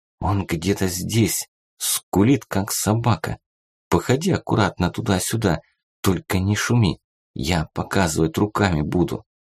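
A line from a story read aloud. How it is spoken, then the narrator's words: Violinist whispering. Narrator (Russian): скрипач шепотом сказал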